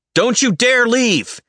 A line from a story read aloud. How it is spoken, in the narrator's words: He yells again